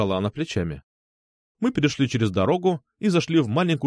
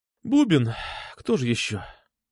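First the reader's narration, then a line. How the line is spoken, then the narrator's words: Sighing. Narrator (Russian): вздохнула она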